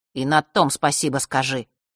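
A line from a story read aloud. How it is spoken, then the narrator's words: Boy grumbling. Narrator (Russian): проворчал мальчик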